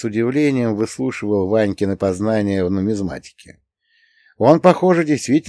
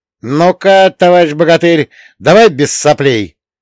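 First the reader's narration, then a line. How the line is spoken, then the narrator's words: Fatherly stern shout. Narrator (Russian): Поотечески прикрикнул я на Ваньку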